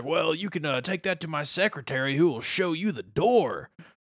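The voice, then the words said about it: Imitates a cartoon character's voice. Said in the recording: “Mr. Satan impersonation ... I'm trying. I like. I really want to get that one down.”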